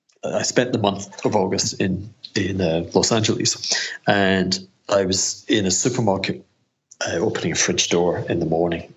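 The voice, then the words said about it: Scottish accent. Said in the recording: “that's a Scottish accent”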